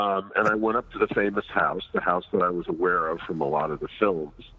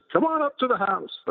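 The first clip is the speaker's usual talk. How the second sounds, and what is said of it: Impression of Larry Cohen. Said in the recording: “That's my Dad Larry Cohen impersonation.”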